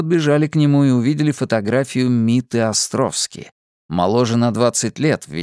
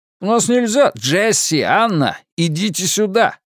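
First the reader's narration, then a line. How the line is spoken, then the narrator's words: Shouting. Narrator (Russian): закричал Дерек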